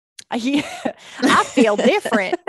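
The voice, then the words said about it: Put-on Southern American accent. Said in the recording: “do a southern accent?”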